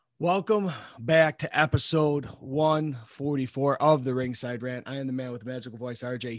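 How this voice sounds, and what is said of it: Hoarse, raspy voice. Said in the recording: “I'm a little hoarse. I was yelling at the goddamn TV so often that I kind of lost my voice ... You're no longer the golden voice ... The raspy voice”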